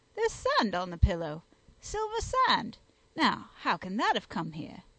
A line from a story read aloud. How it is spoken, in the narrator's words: he exclaimed